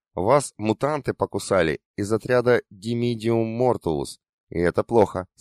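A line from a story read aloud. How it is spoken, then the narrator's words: Plain. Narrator (Russian): сказал академик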